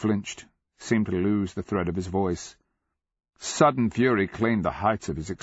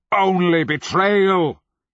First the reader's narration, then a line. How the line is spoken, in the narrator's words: he roared